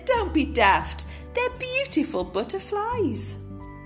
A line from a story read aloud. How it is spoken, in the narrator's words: Day Monkey laughed and said